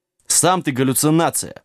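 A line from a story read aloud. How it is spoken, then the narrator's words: Snapping back. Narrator (Russian): огрызнулся Сэм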